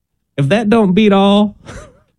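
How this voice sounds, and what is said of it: Put-on Southern accent. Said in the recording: “Why is your voice getting southern sounding? ... a southern accent”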